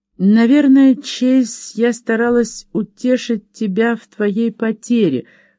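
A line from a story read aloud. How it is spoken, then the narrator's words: Trembling voice. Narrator (Russian): произнесла она дрогнувшим голосом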